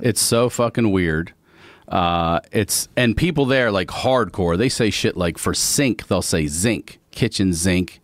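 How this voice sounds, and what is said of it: Friendly southern-tinged Baltimore accent. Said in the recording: “I didn't realize I had a southern accent until I moved here ... It is a southern accent ... It's a different one. ... It's not Alabama. Mississippi South. ... It's a friendly southern accent.”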